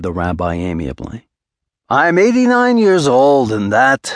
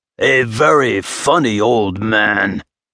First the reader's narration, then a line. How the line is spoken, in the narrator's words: hissed the noble